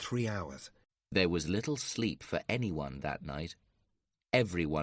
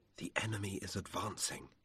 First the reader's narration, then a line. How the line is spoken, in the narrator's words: he whispered